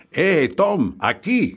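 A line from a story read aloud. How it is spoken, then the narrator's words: Shouted. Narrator (Spanish): gritó Grisby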